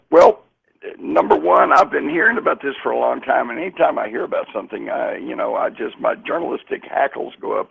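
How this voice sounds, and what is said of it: Hoarse, raspy voice. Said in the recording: “As you can hear, I'm a pony tonight, you know. ... I'm a little horse. ... A little raspy. ... Little raspy, but then that's what happens when you spend a week out in the desert.”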